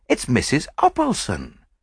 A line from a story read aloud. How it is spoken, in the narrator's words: exclaimed